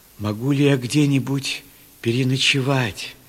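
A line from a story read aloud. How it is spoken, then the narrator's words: Plain. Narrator (Russian): спросил он Ревекку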